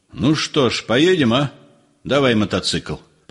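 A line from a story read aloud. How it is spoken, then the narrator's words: Thoughtful. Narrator (Russian): Он задумчиво сказал своему товарищу Рыжему Палайтису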